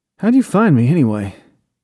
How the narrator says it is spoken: Corey asked through clenched teeth against the pain

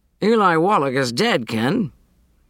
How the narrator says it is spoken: Judge Menking called out

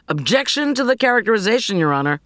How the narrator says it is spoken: Hartford called out louder

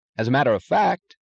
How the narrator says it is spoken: said Taggart eagerly

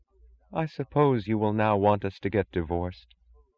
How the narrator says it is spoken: She asked in a dead voice that had the incongruous sound of common sense

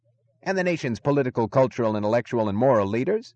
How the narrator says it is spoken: the announcer was yelling into the microphone

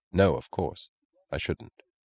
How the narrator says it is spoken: He answered quietly, gravely

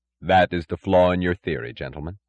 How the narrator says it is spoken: said Reardon gravely

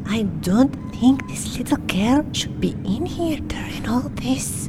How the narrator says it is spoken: A nurse leaned over to Johnny and whispered

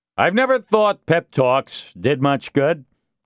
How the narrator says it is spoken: Castillo said loudly to the assault force and gendarmes

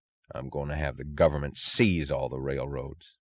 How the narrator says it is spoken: he said, his voice low

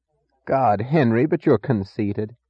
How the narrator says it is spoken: said Philip

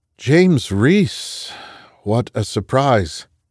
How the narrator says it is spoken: the Masada CEO ventured, his voice masking an unease he hadn't felt since the streets of Mogadishu

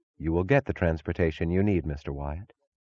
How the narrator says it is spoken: she answered evenly

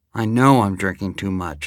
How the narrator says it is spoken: I said

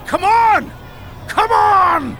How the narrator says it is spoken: shouting

